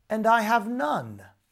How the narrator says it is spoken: cried the young man

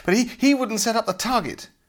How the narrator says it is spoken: panted Tom angrily

